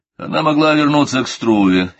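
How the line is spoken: Angry reply. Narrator (Russian): сердито отвечал он

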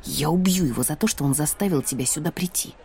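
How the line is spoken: Muttering under breath. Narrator (Russian): пробормотала я под нос

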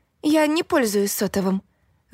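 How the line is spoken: Forced out, dejected. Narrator (Russian): выдавила я уныло

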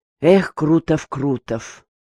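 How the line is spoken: Sighed. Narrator (Russian): вздохнул Черняков

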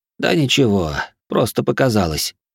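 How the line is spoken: Uncertain answer. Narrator (Russian): неуверенно ответил Шон

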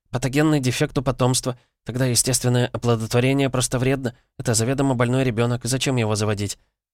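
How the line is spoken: Rapid chatter. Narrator (Russian): кивнувшая Веснушка продолжила тараторить

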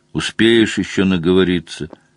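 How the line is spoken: Flat interrupting voice. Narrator (Russian): Бесцветным голосом перебил Слай

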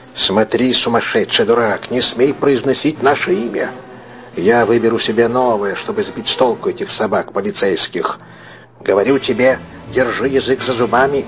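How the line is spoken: Urgent persuasive whisper. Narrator (Russian): Джон Кенти шепотом внушая ему

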